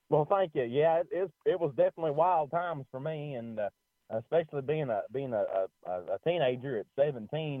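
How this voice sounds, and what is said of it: Country Kentucky accent. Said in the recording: “you definitely have a country accent there... I was gonna guess if you were from Kentucky, because I can tell you have that accent”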